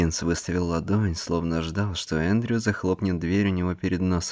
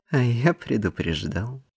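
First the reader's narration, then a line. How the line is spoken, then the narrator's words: Dry reply. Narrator (Russian): сухо отозвался Эндрю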